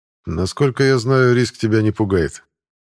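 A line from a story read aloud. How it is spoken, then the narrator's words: Calm reply. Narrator (Russian): спокойно отвечает полковник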